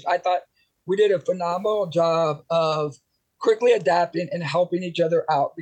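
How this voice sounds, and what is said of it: Rough, strained-sounding voice. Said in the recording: “I was yelling at my kids all day. That's why my voice sounds as horrible as it does”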